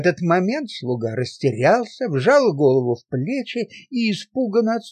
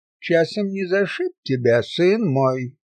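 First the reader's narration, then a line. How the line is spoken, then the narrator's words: Calm question. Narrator (Russian): спокойно поинтересовался монах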